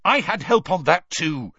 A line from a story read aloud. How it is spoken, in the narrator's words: Harry snapped